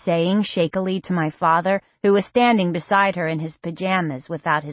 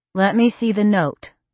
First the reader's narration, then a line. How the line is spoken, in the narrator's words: said calmly